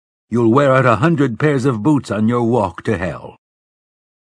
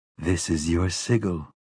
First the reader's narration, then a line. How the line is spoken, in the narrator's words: whispered the fading voice